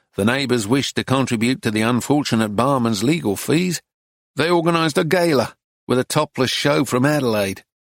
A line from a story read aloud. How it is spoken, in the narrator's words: Arcady continued in the same unemotional tone